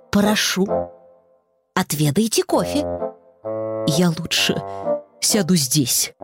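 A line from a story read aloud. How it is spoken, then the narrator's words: Muttered. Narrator (Russian): пробормотал женщина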